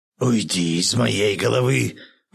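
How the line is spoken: Hoarse rasp. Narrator (Russian): прохрипел Юдин

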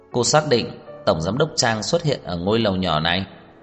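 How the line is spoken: Cold question. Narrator (Vietnamese): Tưởng Vĩ Quốc lạnh lùng hỏi

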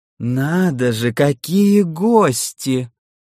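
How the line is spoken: Sudden creaky ruler's voice. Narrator (Russian): Вдруг проскрипел правитель Нолда

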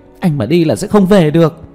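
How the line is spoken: Anxious shout. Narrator (Vietnamese): Chủ Tĩnh Như sốt ruột hét lên

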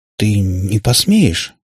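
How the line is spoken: Hesitant. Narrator (Russian): неуверенно начал он

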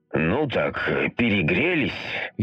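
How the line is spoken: Exhaled. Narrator (Russian): выдохнул

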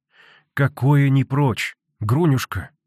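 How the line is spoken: Sad reply. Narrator (Russian): грустно ответила Аксинья Захаровна

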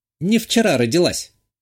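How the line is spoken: Sudden snort. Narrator (Russian): неожиданно хмыкнула Татьяна

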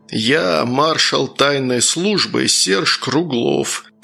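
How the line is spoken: Growled. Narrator (Russian): прорычал Сергей

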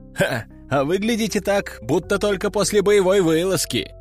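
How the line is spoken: Recruit's short laugh. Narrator (Russian): хохотнул новобранец

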